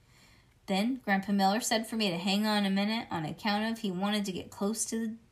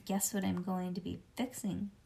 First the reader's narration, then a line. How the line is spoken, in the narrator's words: I whispered back at him